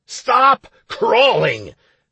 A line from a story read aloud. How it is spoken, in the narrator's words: I roared in a terrible voice